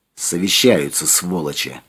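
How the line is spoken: Muttering under breath. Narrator (Russian): пробормотала Юлька под нос

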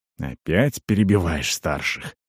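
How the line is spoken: Through gritted teeth. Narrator (Russian): процедил Туур

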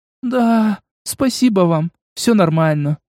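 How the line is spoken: Sighing. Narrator (Russian): вздохнула она

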